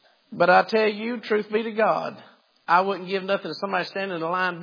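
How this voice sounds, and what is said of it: Usual voice. Nothing is said of it.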